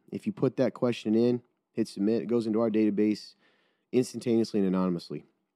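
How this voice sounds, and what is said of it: Nasal, congested voice. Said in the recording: “I can tell my nose, I sound nasally.”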